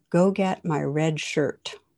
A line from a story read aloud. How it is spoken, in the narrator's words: the captain replies calmly